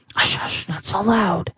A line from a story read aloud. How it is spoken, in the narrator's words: whispered Lisabetta